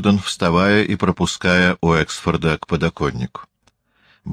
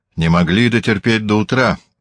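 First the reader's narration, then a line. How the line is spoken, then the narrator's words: Grumbling. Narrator (Russian): проворчал Уэксфорд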